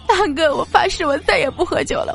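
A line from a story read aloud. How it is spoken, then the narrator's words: Sobbing, half-drunk. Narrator (Chinese): 淡漠 有点醒了呀，突然大哭了起来，跟我说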